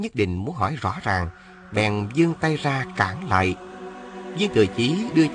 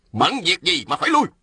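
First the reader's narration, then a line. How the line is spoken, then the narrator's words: Shout. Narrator (Vietnamese): Ôn Phương Ngô quát lên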